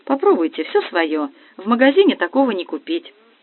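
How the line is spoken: Joyful. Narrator (Russian): радостно сказала

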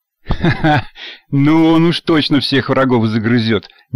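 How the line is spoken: Nervous chuckle. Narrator (Russian): нервно хохотнул водитель

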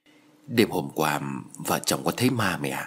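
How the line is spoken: Whisper. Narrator (Vietnamese): Giọng nói thì thầm của con trai

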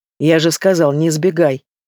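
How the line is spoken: Angry growl over phone. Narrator (Russian): Зло рычу в трубку

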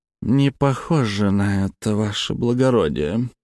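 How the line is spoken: Through gritted teeth, count. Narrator (Russian): процедил граф

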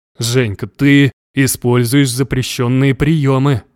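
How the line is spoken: Hoarse. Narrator (Russian): хрипел мой бог

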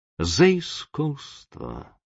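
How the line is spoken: Cold. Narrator (Russian): холодно говорит он Шамшину

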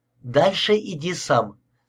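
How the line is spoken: Plain. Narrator (Russian): сказала Карин

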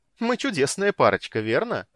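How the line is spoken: Laughing. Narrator (Russian): рассмеялась Китиара

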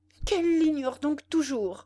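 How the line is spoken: Exclaiming. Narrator (French): s'écria Bénédicte

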